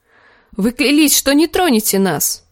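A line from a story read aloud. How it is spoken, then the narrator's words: Exclaiming. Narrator (Russian): воскликнул Гроздан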